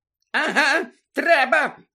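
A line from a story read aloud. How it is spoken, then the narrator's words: Shrieking. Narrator (Ukrainian): верещала місіс Фік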